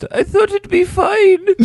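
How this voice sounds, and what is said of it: Put-on Polish-sounding accent. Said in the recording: “What the hell was that accent? ... She's not a Polish immigrant.”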